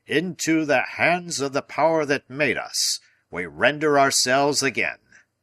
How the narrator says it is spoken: he shouted in his voice of thunder

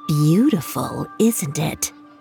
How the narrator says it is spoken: A voice whispered in her ear

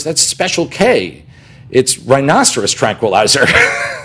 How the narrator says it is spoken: Kelly kind of laughed and she goes

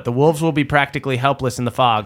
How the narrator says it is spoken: says 36-year-old Nanash

